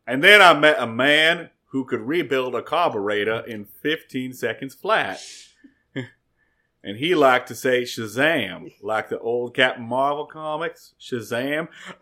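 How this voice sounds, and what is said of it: Imitates another person's voice. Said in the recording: “I'm doing less Forrest Gump, and I'm doing more Nicolas Cage in Con Air ... it sounds way more like fucking... Nicolas Cage and Con Air”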